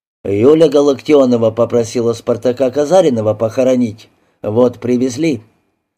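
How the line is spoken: Gloomy reply. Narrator (Russian): мрачно ответил

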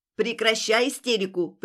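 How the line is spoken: Sharp scolding shout. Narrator (Russian): прикрикнула Алета

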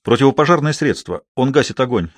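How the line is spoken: Sharp reply. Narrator (Russian): резко ответил Гектор

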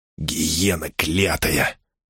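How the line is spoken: Husky whisper. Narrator (Russian): сипло прошептал он

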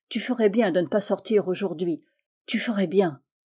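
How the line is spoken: Slightly trembling voice. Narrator (French): dit-il d'une voix qui tremblait un peu

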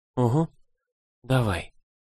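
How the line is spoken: Mumbling, drawn out. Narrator (Russian): промямлила в ответ, растягивая слова

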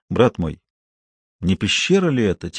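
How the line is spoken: Quiet question. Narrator (Russian): тихонько спросил Лабенгула

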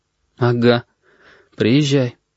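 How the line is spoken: Forced, strained reply. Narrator (Russian): выдавил Корнелий

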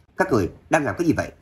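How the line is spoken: Frantic loud shout. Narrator (Vietnamese): Ninh Lâm khẩn trương quát lớn, giống như bị điên

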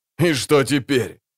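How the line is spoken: Laughing. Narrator (Russian): засмеялся Ширру

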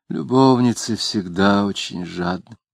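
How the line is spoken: Sighing. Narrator (Russian): И, вздохнув, сказала

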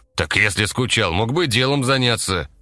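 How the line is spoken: Displeased grumbling. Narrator (Russian): недовольным голосом проворчал Валера

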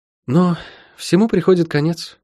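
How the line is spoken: Sigh. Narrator (Russian): вздохнула она

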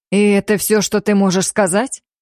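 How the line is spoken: Angry male growl. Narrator (Russian): зло прорычал мужчина

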